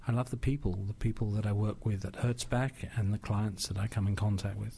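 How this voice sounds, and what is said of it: London English accent. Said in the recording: “I hear an accent... I'm from London, England.”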